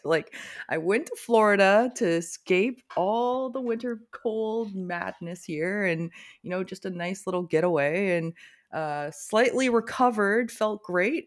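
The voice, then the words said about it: Hoarse, damaged voice from illness. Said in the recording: “I was sick as a dog ... my voice is still kind of fucked ... my voice is gone again”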